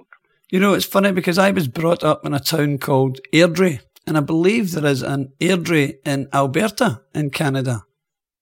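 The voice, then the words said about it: Scottish accent. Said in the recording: “that's my accent ... it's just my accent ... it sounded like 50 ... you Scots ... I love the Scottish accent.”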